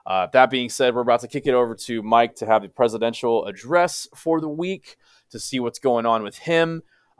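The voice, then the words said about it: Slightly rough, crispy voice. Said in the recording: “my voice sounds a little crispy”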